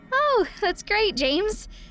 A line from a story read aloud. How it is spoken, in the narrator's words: I said to him cheerfully